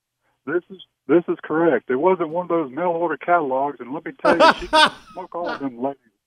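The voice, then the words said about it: Hank Hill impression. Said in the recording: “sounded just like Hank Hill”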